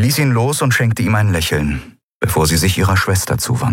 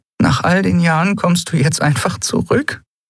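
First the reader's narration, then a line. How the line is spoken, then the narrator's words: Half-choked question. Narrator (German): fragte Elai mit halb erstickter Stimme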